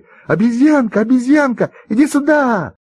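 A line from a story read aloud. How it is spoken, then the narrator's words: Children shouting together. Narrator (Russian): все ребята закричали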